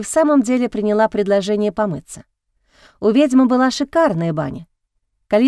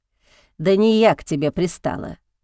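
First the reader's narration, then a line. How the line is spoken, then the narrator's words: Sighing. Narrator (Russian): вздохнула ведьма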